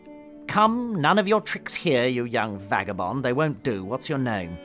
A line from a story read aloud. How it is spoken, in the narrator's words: Fang said with a sneer